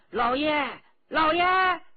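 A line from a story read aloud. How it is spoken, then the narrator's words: Raised voice, calling. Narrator (Chinese): 他提高声音连叫两声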